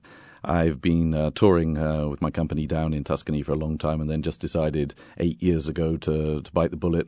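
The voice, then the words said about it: English accent, not Italian. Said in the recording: “your accent is not really very Italian ... I'm from Britain originally, from England, from Bath”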